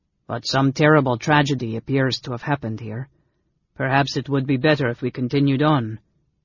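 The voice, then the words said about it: Cultivated voice, unusual accent. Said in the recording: “in a cultivated voice with an unusual accent.”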